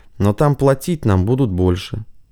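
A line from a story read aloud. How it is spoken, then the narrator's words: Calm. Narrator (Russian): спокойно ответил Бешеный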